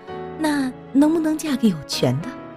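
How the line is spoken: Laughing. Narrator (Chinese): 白燕笑着说

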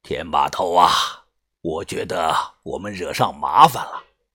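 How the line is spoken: Heavy sigh. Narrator (Chinese): 把头重重的叹口气，转头说道

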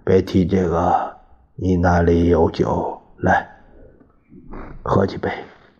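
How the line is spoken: Sighing. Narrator (Chinese): 蒋经国叹道

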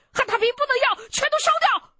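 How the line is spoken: Shouting. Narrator (Chinese): 喊完

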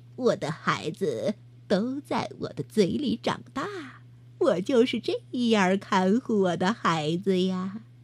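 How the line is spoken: Smiling. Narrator (Chinese): 他微笑着 对小老鼠说

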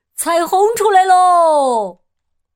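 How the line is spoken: Excited shout. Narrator (Chinese): 基奥的叫声

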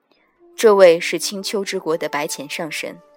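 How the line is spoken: Flat, cool. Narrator (Chinese): 淡淡道

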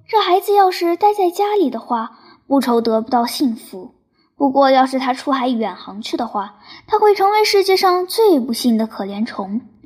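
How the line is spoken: Worried, sighing. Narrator (Chinese): 我父亲 表示出极大的担心 叹了一口气 跟他说

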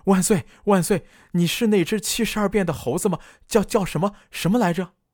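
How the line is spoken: Shouting excitedly. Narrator (Chinese): 大叫着

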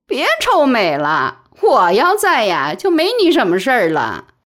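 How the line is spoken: Laughing, teasing. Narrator (Chinese): 贾玲也笑

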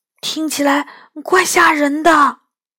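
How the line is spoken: Quiet. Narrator (Chinese): 我小声说

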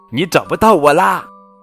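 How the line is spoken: Calling out. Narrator (Chinese): 跟屁熊喊道

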